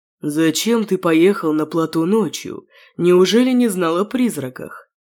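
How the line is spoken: Grumbling. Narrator (Russian): Проворчал Вестник

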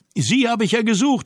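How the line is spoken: Joyful call. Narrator (German): rief ich freudig

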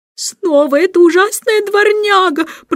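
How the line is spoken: Dismayed groan. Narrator (Russian): простонала мисс Ларк, поняв, наконец, что вторая собака не просто гуляет сама по себе, а сопровождает Эндрю

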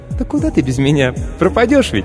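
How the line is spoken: Squeak. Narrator (Russian): Пискнула автоклав

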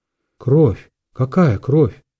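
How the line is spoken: Muttering. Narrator (Russian): Бормотал

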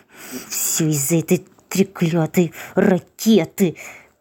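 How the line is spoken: Hissing. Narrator (Russian): прошипел он

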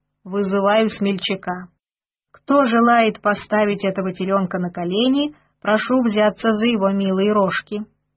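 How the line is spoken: Mocking. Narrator (Russian): Пан Сигизмунд насмешливо сказал

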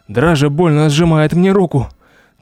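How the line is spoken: Frightened whisper in ear. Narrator (Russian): испуганно шепнула ей на ухо

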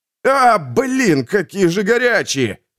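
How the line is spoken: Shout. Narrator (Russian): крикнул Богдан

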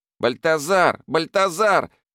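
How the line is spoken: Teenager shouting. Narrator (Russian): закричал подросток

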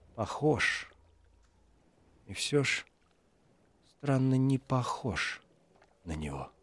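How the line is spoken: Muttering under breath. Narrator (Russian): Гауэр бормочет себе под нос

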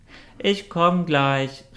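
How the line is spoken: Calling from a cave. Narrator (German): rief Quecktu ihn aus der Höhle hinterher

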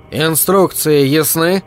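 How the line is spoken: Loud. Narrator (Russian): произнес Rescue громко

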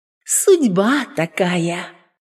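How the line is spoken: Tender voice. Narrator (Russian): молвила лягушка нежным голосом

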